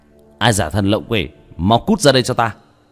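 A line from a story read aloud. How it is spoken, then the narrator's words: Stern shout. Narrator (Vietnamese): Vương Quân Diệt hít sâu một hơi, nghiêm nghị quát lên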